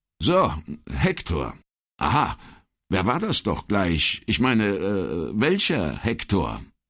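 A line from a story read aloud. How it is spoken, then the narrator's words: Stammered at random. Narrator (German): Brunetti, der mit diesem Code nichts anzufangen wusste, stammelte aufs Geratewohl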